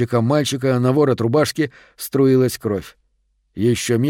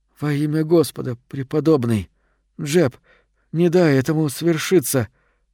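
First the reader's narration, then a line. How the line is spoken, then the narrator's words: Moaning. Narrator (Russian): простонал Дэвид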